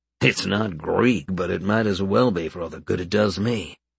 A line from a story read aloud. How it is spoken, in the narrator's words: he muttered to himself